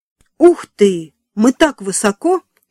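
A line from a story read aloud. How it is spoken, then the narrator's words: Exclamation. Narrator (Russian): воскликнула Эми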